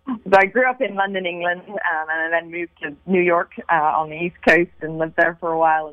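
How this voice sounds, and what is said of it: Mixed London English and American accent. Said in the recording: “Hearing your accent, speaking of Europe ... my accent is a bit all over the place.”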